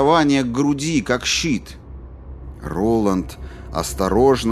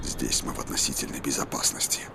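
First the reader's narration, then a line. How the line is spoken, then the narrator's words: Whispering. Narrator (Russian): прошептал он Патрику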